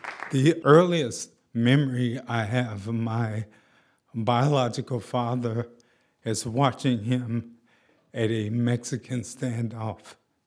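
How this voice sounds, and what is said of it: Slightly shaky voice. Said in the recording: “has MS, so that's why his voice sounds a little shaky sometimes.”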